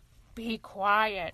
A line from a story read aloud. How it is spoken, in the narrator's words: grumbled the wolf